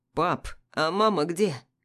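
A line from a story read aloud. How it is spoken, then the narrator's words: Hoarse question, son. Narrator (Russian): хрипло спрашивает сын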